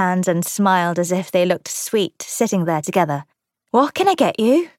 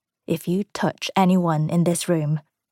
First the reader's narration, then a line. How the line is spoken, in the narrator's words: Nick murmured